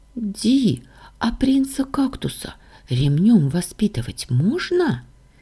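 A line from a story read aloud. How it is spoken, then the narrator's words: Quiet question. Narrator (Russian): тихо спросила Сашка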